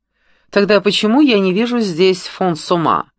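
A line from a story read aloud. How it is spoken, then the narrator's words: Mocking retort. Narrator (Russian): насмешливо возразил Франсуа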